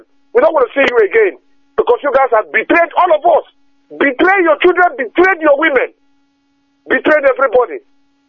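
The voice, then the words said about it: Upset, shouting. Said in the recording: “I get upset. I'm so upset that I start shouting.”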